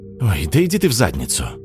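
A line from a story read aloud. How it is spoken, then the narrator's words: Tired exhale. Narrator (Russian): устало выдохнул Слава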